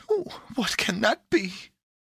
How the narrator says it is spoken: cried Pandora

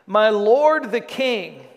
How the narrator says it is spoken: David came out and shouted after him

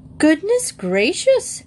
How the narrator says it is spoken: exclaimed Mrs

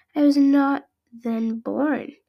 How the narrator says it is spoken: bleated the lamb in a mournful tone

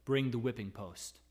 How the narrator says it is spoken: he said

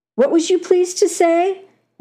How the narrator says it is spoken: whined Carnahan

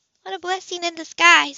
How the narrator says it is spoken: the other woman said quietly

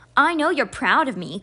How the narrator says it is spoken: Constance said in an exasperated tone

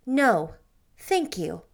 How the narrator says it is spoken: said icily

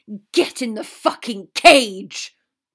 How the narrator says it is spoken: Draco barked

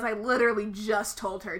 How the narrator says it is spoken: Tom sneered

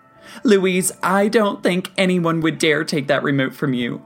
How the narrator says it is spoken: she said, laughing

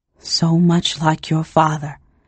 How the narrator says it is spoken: whispered

